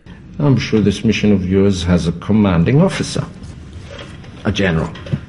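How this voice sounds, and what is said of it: German accent. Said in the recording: “a great, great accent. This is a German accent.”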